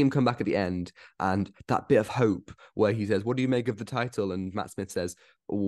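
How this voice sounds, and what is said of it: Usual voice. Nothing is said of it.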